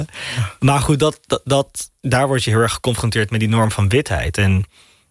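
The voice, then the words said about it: Posh Amsterdam Dutch accent. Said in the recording (Dutch): “Amsterdam Oud-Zuid ... een van de rijkste en bekakste en witte en chique wijken van heel Nederland ... Daardoor praat ik nu ook zoals ik praat met dit accent.”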